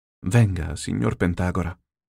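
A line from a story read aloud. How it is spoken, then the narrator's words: Sudden, soft, pale with fear. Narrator (Italian): A un tratto disse piano, impallidendo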